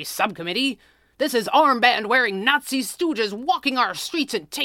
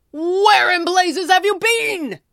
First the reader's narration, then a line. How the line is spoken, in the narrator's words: Pearly roared at his best reporter